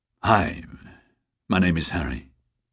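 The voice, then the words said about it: Gravelly male character voice. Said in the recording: “in a gravelly voice”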